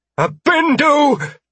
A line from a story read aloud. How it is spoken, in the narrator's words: Jenna called out